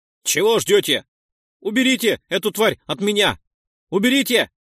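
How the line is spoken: Pained shouting. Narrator (Russian): кричал заключенный, а сфирь терзал его руку

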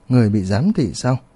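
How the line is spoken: Soft amused laugh. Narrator (Vietnamese): Mỉm cười ... Tiêu Viêm ... khẽ cười nói

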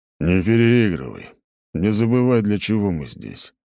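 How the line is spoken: Grumbling sweaty man. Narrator (Russian): проворчал мужчина, обливающийся потом

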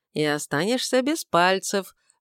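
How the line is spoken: Grim old man's prediction. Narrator (Russian): в очередной раз мрачно предрек дедушка

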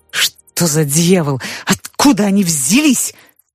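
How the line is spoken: Shouted. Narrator (Russian): закричал начальник

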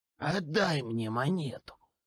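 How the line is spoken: Falsely gentle. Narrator (Russian): ласково произнес Кассий

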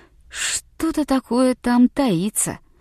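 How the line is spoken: Insistent. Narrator (Russian): утверждал он

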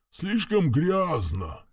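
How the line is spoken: Dull grumbling. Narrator (Russian): глухо проворчал навигатор

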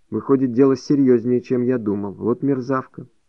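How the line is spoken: Embarrassed. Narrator (Russian): тут же покраснел от своей наглости и сказал

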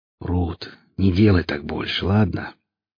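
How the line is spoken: Soft, smiling. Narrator (Russian): мягко улыбнувшись, проговорил Велес

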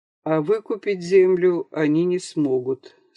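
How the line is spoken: Plain. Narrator (Russian): сказал Антон

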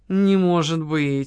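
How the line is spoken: Strained, forced out. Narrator (Russian): выдавил

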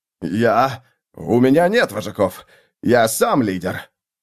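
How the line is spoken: Strained, forced out. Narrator (Russian): Сглотнув, он выдавил

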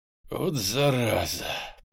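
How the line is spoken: Drawl. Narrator (Russian): протянул я

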